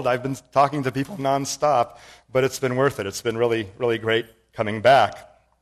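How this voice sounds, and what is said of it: Hoarse voice. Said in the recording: “My voice is now hoarse because I'm coming down with a cold.”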